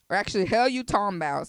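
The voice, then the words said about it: Put-on Southern accent. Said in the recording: “let me get my Southern accent together”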